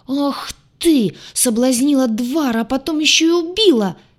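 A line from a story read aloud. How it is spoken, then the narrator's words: Shriek. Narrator (Russian): Завизжала рыжая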